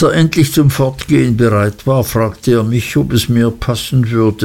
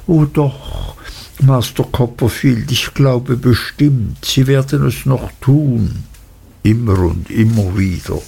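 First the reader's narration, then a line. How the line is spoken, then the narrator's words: Gentle reply. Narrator (German): antwortete Uriah sanft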